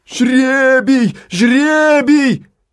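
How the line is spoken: Crowd shouting. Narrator (Russian): закричала толпа

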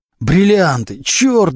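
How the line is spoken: Howled. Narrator (Russian): взвыл Глущенко

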